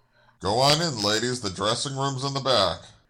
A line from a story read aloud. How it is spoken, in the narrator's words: mumbled